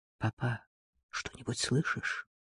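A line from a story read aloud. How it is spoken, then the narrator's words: Whisper. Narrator (Russian): Джей прошептал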